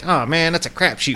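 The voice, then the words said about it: 1920s-era accent impression. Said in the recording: “That was my impression of somebody from the 20s. ... It was nailed. ... that guy with that particular accent”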